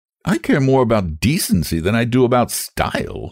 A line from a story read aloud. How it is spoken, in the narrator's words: she snapped